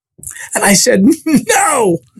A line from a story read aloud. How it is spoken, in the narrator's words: I screamed real loud